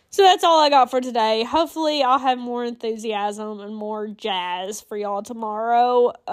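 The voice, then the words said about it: Congested, sick-sounding voice. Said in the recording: “my voice sounds, like, really out of it ... It's just gunk in the back of my throat and in my nose. And I'm sorry about the coughing.”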